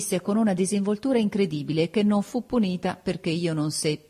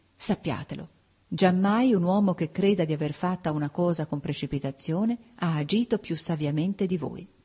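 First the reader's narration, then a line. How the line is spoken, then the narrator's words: Low voice. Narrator (Italian): a bassa voce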